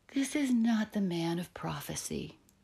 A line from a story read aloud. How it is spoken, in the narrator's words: sighed Ernest to himself